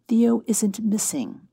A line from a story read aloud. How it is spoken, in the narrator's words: Betty said calmly